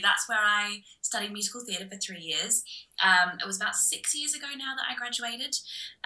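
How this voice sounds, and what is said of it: Slight Australian accent, Aussie vowels. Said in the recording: “you might hear a slight twang in my voice. I'm from Australia originally... you'll hear some vowels here and there that are very, very Aussie”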